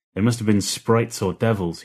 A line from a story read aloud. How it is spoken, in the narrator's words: he spat